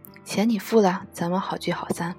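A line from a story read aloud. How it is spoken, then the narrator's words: Low voice. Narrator (Chinese): 可乐先生埋头低声说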